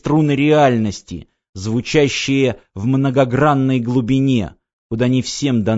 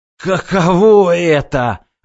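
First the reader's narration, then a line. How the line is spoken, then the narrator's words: Hiss. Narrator (Russian): прошипел Эрипио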